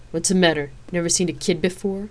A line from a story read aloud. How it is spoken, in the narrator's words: she growled